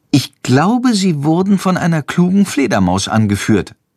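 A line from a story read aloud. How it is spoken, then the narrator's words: Plain. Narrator (German): antwortet Jendrik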